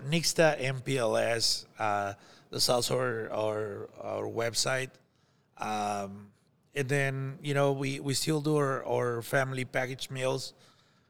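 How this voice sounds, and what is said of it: Thick foreign accent. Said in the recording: “I think my accent is very thick”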